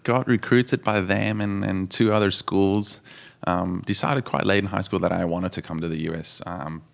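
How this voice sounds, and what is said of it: South African accent. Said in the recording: “you came from South Africa ... You can tell from the accent.”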